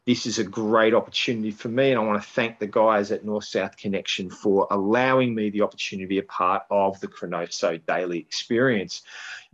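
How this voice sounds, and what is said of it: Australian accent. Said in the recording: “This is a real accent. ... You cannot get more south than Australia.”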